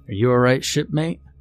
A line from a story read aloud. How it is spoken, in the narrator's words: asked